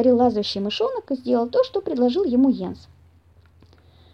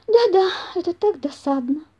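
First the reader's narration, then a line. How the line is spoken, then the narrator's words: Sighing squirrel. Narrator (Russian): вздохнула бельчиха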